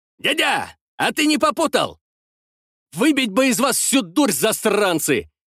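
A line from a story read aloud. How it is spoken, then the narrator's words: Furious shout. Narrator (Russian): Яростно крикнул я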